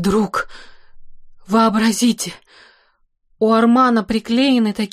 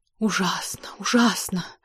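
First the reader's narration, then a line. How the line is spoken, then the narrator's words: Whisper. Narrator (Russian): прошептала Элиза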